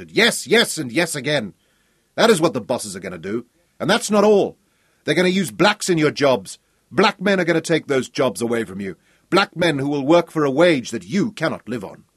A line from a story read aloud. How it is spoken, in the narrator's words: he shouted